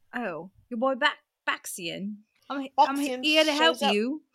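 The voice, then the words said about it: Put-on Cockney accent. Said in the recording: “Can you do the Cockney accent again?”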